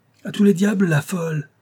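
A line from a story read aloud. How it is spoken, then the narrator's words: Furious shout. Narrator (French): s'écria le colonel en fureur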